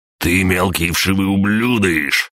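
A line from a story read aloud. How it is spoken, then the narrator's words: Roaring. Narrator (Russian): проревел Светлогоров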